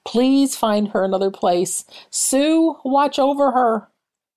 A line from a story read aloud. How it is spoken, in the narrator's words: I begged God